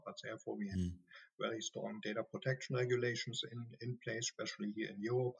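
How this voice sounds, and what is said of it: Strong German accent. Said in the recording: “I'm a German, as you can hear from my strong accent.”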